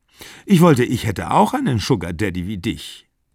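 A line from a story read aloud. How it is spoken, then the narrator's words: Plain. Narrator (German): sagte die Freundin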